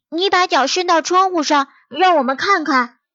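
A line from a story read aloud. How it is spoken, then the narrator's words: Group shouting. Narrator (Chinese): 小羊们喊道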